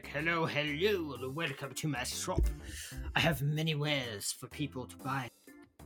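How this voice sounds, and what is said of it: Made-up, vaguely French-sounding accent. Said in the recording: “Is he French? ... I am not French. I am just very. I don't know what this accent is. I made it up on the spot.”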